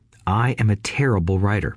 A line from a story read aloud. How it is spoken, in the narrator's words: I said